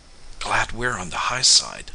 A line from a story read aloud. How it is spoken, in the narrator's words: whispered Mike